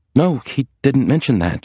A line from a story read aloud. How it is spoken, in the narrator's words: she sputtered